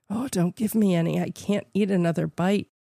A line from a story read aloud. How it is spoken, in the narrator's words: whispered